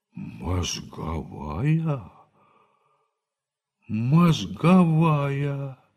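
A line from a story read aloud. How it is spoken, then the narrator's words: Disappointed drawl. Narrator (Russian): разочарованно протянул Лопахин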